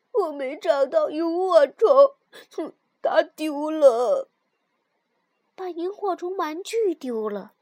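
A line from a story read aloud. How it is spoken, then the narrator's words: Muffled crying. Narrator (Chinese): 尤里把头埋在爸爸的怀里，哭着说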